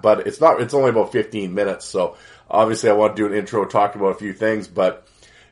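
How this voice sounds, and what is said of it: Voice still a bit unwell. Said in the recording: “you can probably obviously still hear it in my voice a little bit”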